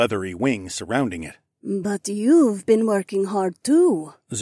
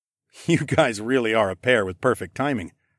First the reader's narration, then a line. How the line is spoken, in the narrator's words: I chuckled